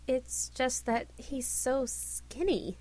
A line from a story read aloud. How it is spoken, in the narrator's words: Sir Bedivere cleared his throat and muttered